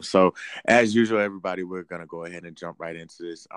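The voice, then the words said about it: Tired-sounding voice. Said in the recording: “I sound tired. I am tired.”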